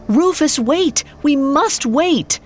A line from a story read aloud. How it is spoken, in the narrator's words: He cried out